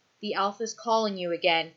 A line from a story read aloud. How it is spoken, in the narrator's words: he says, his voice even but tight with anxiety